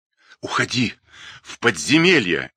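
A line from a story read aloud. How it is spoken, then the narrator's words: Furious rasp. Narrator (Russian): яростно прохрипел Славомир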